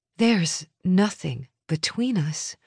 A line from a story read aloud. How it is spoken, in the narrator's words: I said calmly